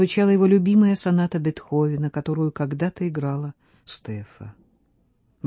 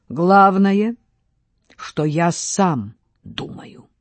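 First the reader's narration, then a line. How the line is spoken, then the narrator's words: Loud. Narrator (Russian): Громко произнес вслух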